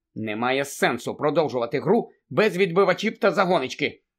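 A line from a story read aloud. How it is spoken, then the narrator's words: Angry. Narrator (Ukrainian): сказала сердито Анджеліна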